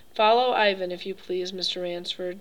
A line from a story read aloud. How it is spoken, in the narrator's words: said the general